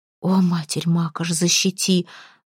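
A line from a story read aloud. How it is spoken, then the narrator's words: Relieved exhale. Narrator (Russian): выдохнула Малфутка, чувствуя, как с нее спало оцепенение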